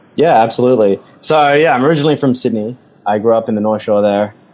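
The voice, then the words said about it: Australian accent with a twang. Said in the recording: “I can hear that Aussie twang in your voice”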